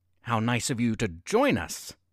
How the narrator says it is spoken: he sneered

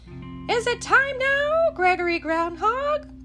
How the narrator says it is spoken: cried Charlie Crow

